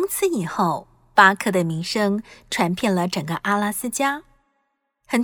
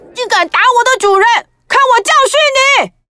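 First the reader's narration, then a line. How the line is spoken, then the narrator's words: Silent angry roar. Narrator (Chinese): 巴克心里怒吼着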